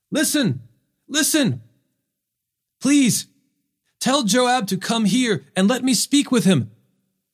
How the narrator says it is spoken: a wise woman called out from the city

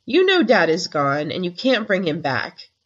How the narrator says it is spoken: said sharply

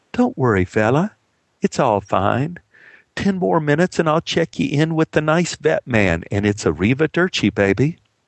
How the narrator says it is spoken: felt very guilty and calmly said

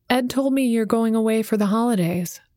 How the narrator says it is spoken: Messenger said

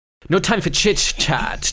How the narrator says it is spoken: Twig snaps

